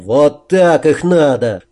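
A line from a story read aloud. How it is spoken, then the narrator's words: Triumphant chuckle. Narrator (Russian): торжествующе хохотнул парень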